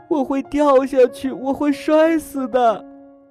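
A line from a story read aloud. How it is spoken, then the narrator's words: Crying. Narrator (Chinese): 我哭着说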